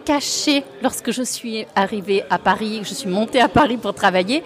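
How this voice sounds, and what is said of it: Sing-song southern French accent. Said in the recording (French): “chantant qui vient de Provence, du sud, d'Italie ... on sait que c'est chantant ... ce petit accent, c'est un mélange de Nîmes, d'Italie”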